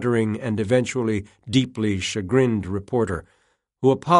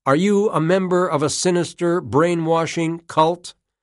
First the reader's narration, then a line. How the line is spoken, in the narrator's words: Travolta's fans shouted Sweeney down